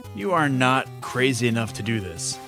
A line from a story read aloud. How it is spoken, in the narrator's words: sighed Elias